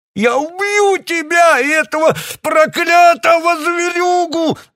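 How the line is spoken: Yelling. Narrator (Russian): завопил он

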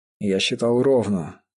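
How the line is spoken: Calm. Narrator (Russian): спокойно ответил он

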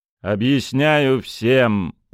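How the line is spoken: Metallic voice. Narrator (Russian): проговорил Тарас металлическим голосом

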